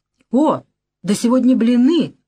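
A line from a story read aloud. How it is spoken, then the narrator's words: Shouted. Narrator (Russian): закричал он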